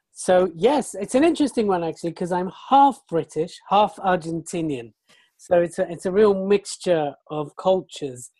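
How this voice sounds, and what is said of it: British English accent. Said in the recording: “we can tell from the accent that you're from somewhere in the UK”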